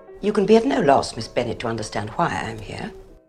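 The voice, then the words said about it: Stereotypical posh British accent. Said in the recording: “a British accent ... This is a stereotypical British accent.”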